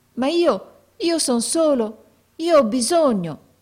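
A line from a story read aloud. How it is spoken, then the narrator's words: Boy's pleading voice. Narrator (Italian): esclamò il ragazzo con voce di preghiera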